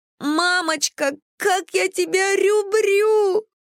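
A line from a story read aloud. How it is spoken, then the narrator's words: Daughter shrieking. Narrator (Russian): завопила дочь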